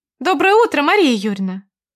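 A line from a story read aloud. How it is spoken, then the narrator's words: Cheerful chirping girl. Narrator (Russian): весело щебетала девушка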